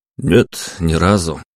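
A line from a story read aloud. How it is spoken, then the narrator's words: Grumbling mutter. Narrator (Russian): пробурчал я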